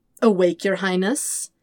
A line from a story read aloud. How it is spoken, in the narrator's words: He sneers